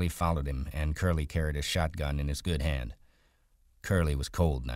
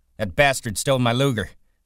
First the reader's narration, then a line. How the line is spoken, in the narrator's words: he shouted